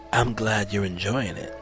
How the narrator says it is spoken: Jazz purred

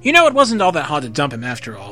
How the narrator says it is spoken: Usagi said cheerfully

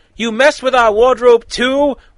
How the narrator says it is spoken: Robin asked, more like yelled at Cyborg

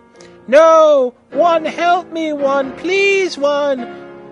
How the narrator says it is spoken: Brittany screamed terrifiedly

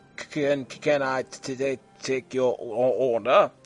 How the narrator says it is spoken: He stammered

